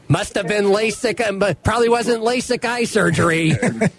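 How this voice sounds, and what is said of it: Gravelly imitation of another person's voice. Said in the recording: “good Pivovar impersonation... The gravelly”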